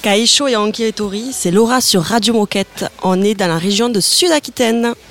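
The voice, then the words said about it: Noticeable regional French accent. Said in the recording (French): “Et on l'avait pas remarqué à l'accent, pas du tout.”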